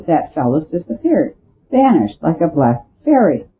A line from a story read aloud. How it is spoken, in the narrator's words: called out the Duke sharply